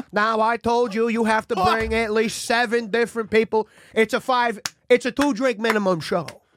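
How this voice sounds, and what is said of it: Imitates another person's voice. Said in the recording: “you sound really different. ... is that Denzel Washington? ... that impression sucked, and now it's actually there. ... It's John F. Kennedy, though.”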